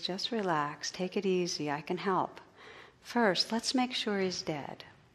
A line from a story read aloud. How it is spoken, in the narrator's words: The operator, in a calm, soothing voice, says